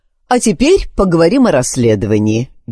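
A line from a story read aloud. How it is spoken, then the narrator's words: Cheerful declaration. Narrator (Russian): весело заявила леди Дэвид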